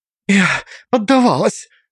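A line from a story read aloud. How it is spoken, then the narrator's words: Breathless exhale. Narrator (Russian): выдохнула Алиса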